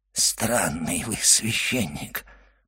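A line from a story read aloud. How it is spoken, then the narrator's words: Whispered. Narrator (Russian): прошептал Кадрус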